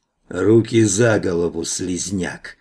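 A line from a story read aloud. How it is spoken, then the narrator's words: Creaky voice from behind. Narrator (Russian): проскрипела сзади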